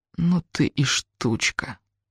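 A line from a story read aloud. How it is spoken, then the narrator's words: Through gritted teeth. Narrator (Russian): сажу я сквозь зубы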